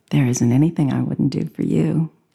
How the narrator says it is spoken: she smiled and said quietly

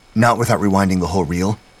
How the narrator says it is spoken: Hammond said quickly

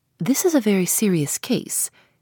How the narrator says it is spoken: he says

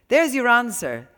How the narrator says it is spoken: Walter said with a laugh

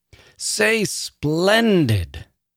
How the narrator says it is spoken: bellowed once again

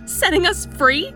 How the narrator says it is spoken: I cried

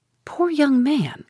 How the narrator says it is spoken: cried Mrs

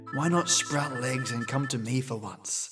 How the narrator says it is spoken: I muttered to myself

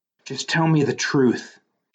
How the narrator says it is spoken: she said in a pained, detached voice

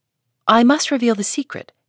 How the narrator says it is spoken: answered Hester firmly

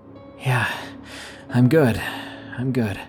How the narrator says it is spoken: trying my best to catch my breath, and wheezed out

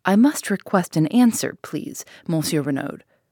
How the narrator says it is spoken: said Giraud sharply

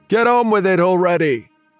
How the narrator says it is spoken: There was a chorus of jeering support

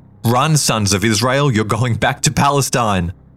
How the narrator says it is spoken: One called out

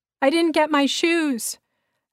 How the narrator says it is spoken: I yelled dumbly

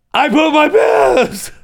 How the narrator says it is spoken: you yell

